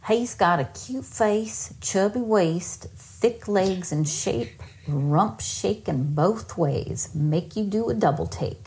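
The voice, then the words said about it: Put-on Georgia Southern accent. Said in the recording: “if she read it in an accent that is not her own ... It looks like this is out of Georgia, so I am going to attempt to do it in an accent. Please forgive me if I offend anyone.”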